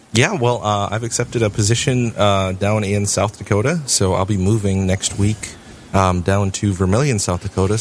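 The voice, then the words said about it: Good radio voice. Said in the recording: “you have a good radio voice”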